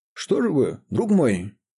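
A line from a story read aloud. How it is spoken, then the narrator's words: Exclaimed. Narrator (Russian): воскликнул он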